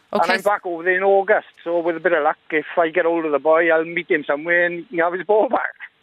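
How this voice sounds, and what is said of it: Welsh accent. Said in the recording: “the Welsh accent”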